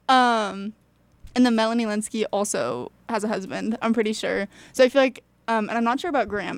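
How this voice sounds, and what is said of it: Breathless speech with cracking voice. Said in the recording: “I biked here so fast... So I'm a little out of breath and my voice is cracking now.”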